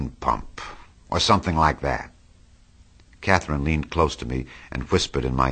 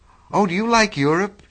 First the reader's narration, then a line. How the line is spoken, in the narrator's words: She exclaimed, surprisingly